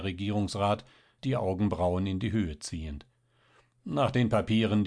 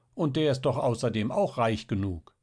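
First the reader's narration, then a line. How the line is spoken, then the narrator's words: Call. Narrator (German): rief Luise, die Frau von Franz Hechner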